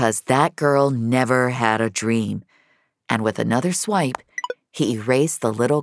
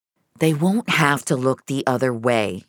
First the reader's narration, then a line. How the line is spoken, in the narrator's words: he said firmly